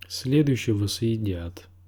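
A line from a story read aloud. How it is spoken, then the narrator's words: Grim promise. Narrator (Russian): мрачно посулил Тирион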